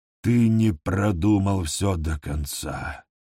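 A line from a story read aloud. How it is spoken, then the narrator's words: Tired hunter. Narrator (Russian): устало промолвил охотник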